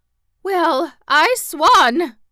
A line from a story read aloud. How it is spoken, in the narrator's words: gurgled Aunt Em in a hoarse, frightened voice